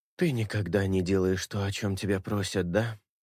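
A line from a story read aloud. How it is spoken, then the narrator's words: Hoarse. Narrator (Russian): Хриплю я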